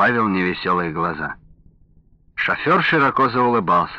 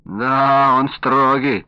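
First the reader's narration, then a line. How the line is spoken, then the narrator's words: Drawling. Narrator (Russian): протянул Ваня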